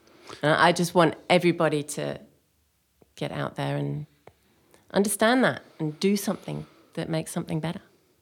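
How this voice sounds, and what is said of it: English accent. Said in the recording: “With the English accent from Australia.”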